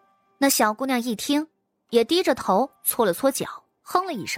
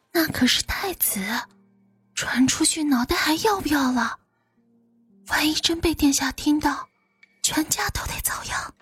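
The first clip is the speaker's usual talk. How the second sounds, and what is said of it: Hushed, lowered warning voice. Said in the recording (Chinese): “压着声音提醒”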